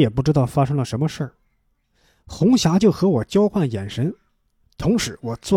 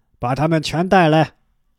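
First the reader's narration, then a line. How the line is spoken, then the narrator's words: Roaring shout. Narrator (Chinese): 石有三就吼叫着说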